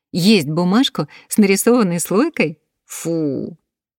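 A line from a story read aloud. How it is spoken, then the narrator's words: Child laughing. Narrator (Russian): Мальчик рассмеялся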